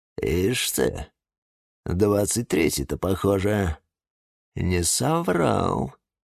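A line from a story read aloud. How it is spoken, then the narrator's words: Grim. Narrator (Russian): мрачно сказала Фельда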